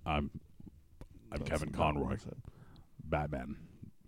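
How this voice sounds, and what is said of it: Kevin Conroy Batman impression. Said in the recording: “I'm working on my Kevin Conroy impersonation. ... trying to learn how to do Kevin Conroy's voice”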